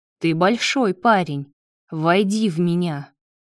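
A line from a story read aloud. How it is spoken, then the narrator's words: Growl. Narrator (Russian): прорычал Лео ему в ответ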